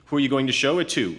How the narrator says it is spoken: Oog said

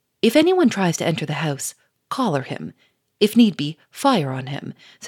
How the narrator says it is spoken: said Gouchard firmly

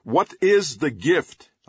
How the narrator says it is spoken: I called out

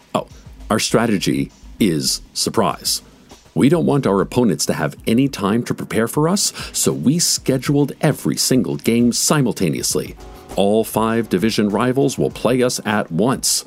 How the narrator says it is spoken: she said

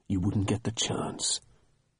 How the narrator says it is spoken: said, lowering his voice

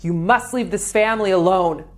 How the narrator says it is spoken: yelling

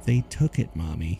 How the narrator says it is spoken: mumbled

